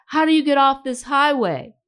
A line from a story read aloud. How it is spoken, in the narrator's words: yelled against the traffic's steady roar